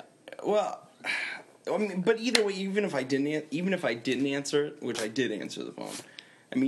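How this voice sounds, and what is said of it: Usual voice. Nothing is said of it.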